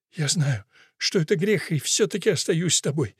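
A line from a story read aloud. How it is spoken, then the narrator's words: Sobbing woman. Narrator (Russian): всхлипнула Бонифация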